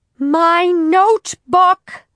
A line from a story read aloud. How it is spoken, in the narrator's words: Harriet shouted